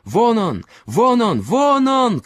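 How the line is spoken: Group shouting. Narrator (Russian): кричали они

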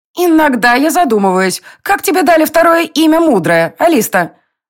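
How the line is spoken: Indignant shadow's declaration. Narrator (Russian): Возмущенно заявила тень

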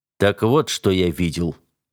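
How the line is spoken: Muffled, hollow voice. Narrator (Russian): сказал он глухо

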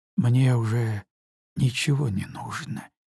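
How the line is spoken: Barely audible reply. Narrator (Russian): чуть слышно ответила Елена

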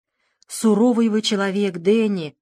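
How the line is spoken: Gloomy declaration. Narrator (Russian): мрачно заявил

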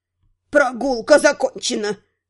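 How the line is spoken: Crisp clipped words. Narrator (Russian): отчеканила Вента

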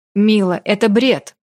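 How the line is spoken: Sharp interruption. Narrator (Russian): Резко оборвал меня Рай

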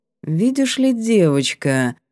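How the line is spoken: Drawn-out drawl. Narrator (Russian): протянул Аяр

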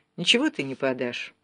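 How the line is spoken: Calm objection. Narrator (Russian): спокойно возразил Гуров

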